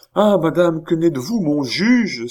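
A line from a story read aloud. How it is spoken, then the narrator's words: Old woman exclaiming. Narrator (French): s'écria la vieille comtesse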